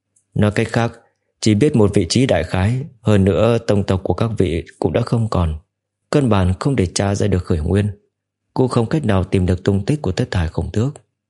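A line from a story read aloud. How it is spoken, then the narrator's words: Slightly frowning. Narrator (Vietnamese): khẽ nhíu mày nói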